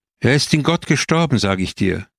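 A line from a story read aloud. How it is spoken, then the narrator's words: Loud, desperate shout. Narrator (German): rief laut, als wollte sie einen Albtraum verjagen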